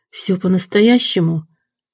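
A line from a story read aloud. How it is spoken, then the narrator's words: Trembling voice. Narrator (Russian): Дрогнувшим голосом попросила Ирина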